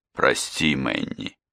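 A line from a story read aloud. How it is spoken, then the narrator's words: Groggy mumble. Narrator (Russian): бормотал Фрэнк, постепенно приходя в сознание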